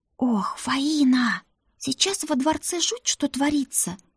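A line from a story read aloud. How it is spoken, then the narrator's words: Dropping to whisper. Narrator (Russian): перешла на шепот Рута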